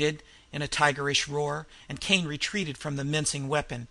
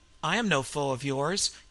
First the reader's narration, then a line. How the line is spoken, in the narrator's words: Kane spoke calmly